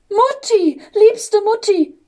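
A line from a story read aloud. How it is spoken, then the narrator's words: Joyful child's call. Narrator (German): rief der kleine Engel voller Freude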